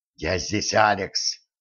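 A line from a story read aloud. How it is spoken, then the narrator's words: Whisper. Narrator (Russian): прошептал он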